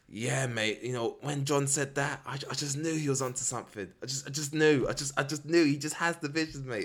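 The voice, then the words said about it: Exaggerated British accent. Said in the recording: “going into a really British accent”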